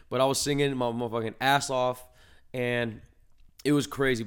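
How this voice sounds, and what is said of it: Hoarse, raspy voice. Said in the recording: “it sounds like I got a pony in my throat. You know, I'm a little hoarse over here”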